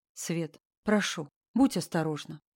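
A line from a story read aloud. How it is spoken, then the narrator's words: Quiet, heart-wounding tone. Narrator (Russian): тихо сказал он, и в голосе была та нота, которая ранит прямо в сердце и сеет сомнения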